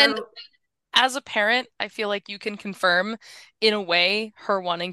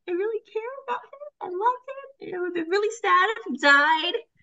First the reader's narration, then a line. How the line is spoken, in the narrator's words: she cries